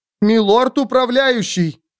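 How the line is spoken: Shouted after someone. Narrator (Russian): крикнула она ему вслед

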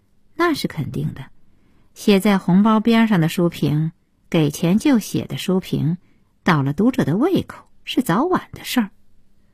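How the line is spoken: Cold retort. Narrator (Chinese): 顾小西冷冷的接茬说

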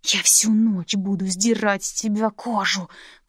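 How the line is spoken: Growl. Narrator (Russian): прорычал

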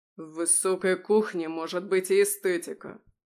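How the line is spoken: Growl. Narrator (Russian): прорычал он

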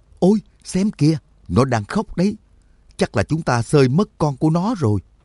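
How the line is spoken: Shrieking. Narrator (Vietnamese): Nhạc Dương rú lên

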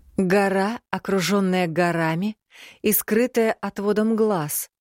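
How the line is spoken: Summing up, slightly dizzy. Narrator (Russian): подытожила я, борясь с легким головокружением

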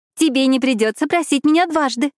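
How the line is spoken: Squeaky voice. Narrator (Russian): пискнула Фиби

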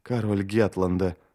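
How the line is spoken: Muttering under breath. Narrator (Russian): пробормотал он себе под нос

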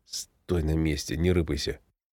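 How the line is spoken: Whisper. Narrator (Russian): шепотом сказал

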